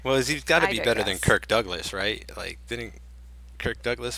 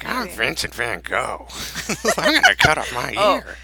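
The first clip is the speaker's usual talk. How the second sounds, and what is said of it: Imitates another person's voice. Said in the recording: “He's like... that's for sure your best impression yet.”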